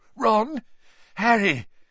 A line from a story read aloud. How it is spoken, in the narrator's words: His voice sounded shaky